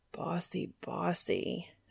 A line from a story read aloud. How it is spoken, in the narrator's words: Dean groaned